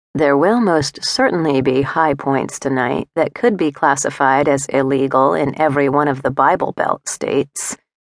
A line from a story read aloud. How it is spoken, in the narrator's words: he said, his voice low with desire